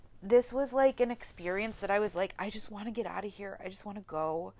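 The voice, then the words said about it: Tearful, emotional, shaky voice. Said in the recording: “I'm actually like kind of crying ... as you can hear, the way my voice just changed when I started talking about that”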